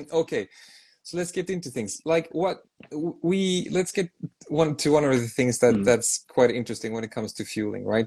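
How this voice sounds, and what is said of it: Swedish accent. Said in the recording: “I have a pretty bad accent. So I'm from Sweden.”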